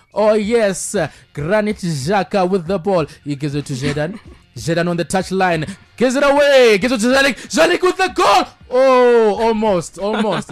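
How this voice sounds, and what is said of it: Impression of commentator Charles Mabika. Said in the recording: “our erstwhile Zimbabwean football commentator Charles Mabika commentating on Granit Xhaka”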